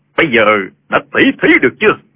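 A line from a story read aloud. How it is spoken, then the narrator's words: Loud. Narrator (Vietnamese): Trương Vô Kỵ lớn tiếng nói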